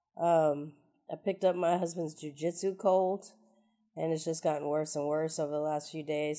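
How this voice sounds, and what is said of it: Sick, congested voice. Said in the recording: “as you can probably tell from my voice, I am sick as hell”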